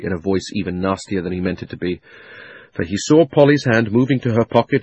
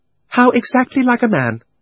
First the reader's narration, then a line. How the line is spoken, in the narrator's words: said Polly in a very grown-up voice